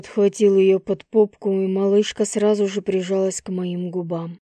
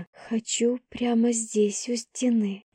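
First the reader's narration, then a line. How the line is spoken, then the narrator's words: Whispered. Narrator (Russian): прошептала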